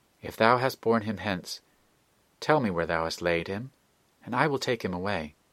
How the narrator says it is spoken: said earnestly

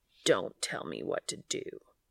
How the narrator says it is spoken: Cass growled

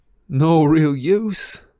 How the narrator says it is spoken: said Ron in a strained voice

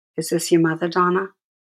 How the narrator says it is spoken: he asked

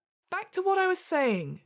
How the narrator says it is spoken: shouted

